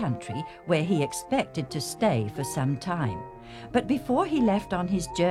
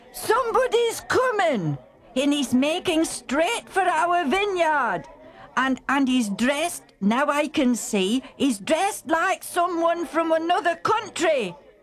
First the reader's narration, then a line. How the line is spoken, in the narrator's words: the man stationed on the watchtower called out to the busy tenant farmers